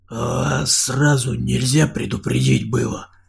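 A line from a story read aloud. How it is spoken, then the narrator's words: Indignant whisper. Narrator (Russian): донесся возмущенный шепот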